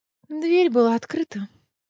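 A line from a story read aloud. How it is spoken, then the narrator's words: Sleepy reply. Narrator (Russian): сонным голосом ответила Неста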